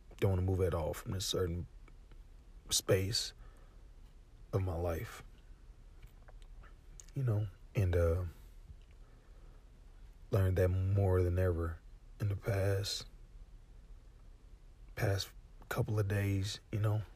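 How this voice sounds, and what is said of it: Rough, worn-out voice. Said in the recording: “my voice is beyond trash ... I know it sounds bad”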